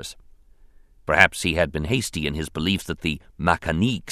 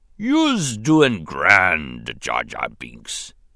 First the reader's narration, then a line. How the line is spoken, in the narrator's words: he rumbled